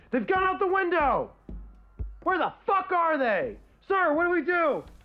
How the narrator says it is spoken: You can hear one of them yelling

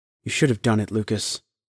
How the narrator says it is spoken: mumbled Emma from the living room

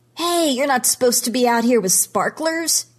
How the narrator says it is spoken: he yells

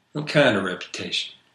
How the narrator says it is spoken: He sighed

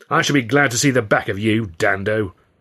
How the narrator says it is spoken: Hurley growled

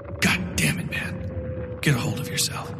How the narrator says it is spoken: whispered

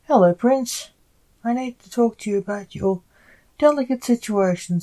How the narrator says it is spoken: said the ambassador

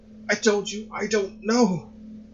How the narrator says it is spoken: he cried, his hands shaking

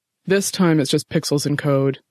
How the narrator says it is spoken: Jeffy said

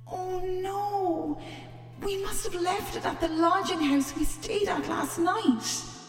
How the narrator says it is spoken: he groaned

